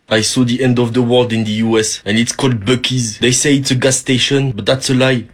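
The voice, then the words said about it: Heavy French accent. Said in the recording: “He's got a heavy French accent”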